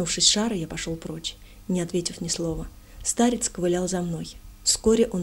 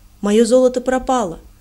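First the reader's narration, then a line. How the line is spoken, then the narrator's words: Sudden powerful voice. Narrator (Russian): он заговорил вдруг мощным голосом, странным образом звучавшим в его хилом теле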